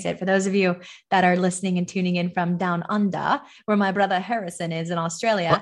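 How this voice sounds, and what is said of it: Weak put-on Australian accent, sounds British. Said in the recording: “We'll work on that Australian accent ... I know I need to work on it a lot. It's like people are like, you sound very British,”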